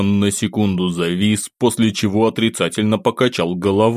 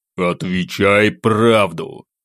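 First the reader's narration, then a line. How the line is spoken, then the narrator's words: Loud growl. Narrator (Russian): громко при этом рыкнув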